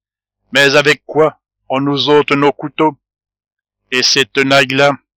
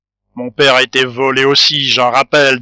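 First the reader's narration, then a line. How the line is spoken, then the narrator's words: Fierce sneering laugh. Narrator (French): dit Nicolas Martial avec un ricanement féroce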